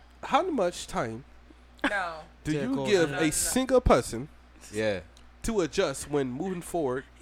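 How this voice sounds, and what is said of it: Put-on Jamaican accent. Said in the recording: “I'm going to read this in the accent ... He sound like Black ... Jamaican.”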